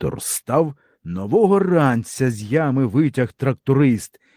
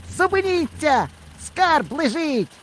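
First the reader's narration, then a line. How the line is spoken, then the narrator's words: Shout. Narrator (Ukrainian): барвінок наш як крикне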